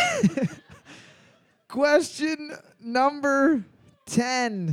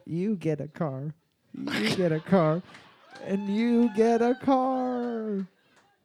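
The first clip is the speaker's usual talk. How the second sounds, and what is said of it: Imitates another person's voice. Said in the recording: “in your best Oprah voice ... Fucking on point.”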